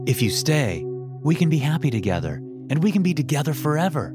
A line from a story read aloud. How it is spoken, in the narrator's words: Vincent said excitedly